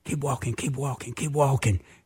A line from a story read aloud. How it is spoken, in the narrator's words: all of a sudden I whispered